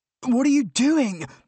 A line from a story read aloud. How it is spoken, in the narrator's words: I demanded, only mildly hysterically